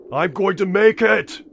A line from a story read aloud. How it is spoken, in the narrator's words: He yells